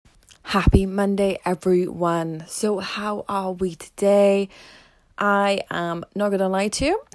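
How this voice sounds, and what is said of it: Slightly out of breath. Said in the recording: “I'm a little bit out of breath from sprinted up two flights of stairs”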